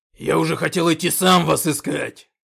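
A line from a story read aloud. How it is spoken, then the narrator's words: Roared. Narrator (Russian): проревел Когтеклык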